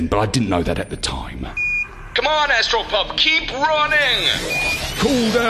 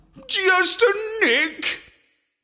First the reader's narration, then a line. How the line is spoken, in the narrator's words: I howled